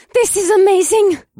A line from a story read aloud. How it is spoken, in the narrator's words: Revna gasped